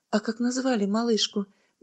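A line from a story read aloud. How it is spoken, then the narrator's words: Soft question. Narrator (Russian): мягко спросила Бетекин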